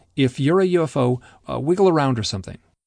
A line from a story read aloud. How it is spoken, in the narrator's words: I blurted out